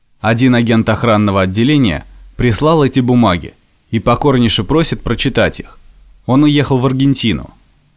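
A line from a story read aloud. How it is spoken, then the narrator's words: Flat robotic monotone. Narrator (Russian): Евсей проговорил безучастным голосом, точно автомат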